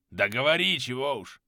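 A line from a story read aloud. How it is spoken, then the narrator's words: Grumbling. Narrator (Russian): Пробурчал Кёниг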